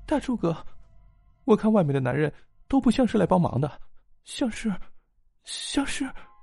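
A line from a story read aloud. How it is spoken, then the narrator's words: Trailing off into tears. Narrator (Chinese): 陆青话没说完就哭了起来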